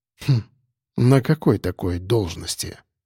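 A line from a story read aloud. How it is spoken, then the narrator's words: Quiet, conspiratorial. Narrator (Russian): Тихо заговорщицки проговорил я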